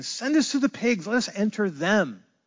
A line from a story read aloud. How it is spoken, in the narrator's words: they begged him, saying